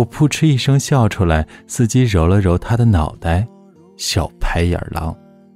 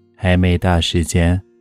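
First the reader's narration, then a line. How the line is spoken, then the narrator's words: Flat, calm cat. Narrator (Chinese): 橘猫淡淡道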